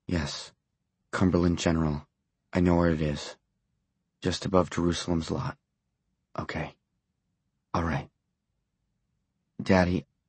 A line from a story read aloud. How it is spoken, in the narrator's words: his voice broke